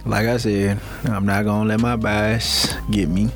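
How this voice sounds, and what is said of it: Flat, depressed-sounding voice. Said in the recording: “you sound so depressed”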